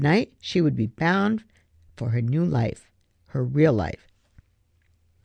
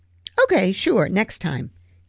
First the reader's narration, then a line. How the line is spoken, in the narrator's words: agreed, knowing happily that there would be no next time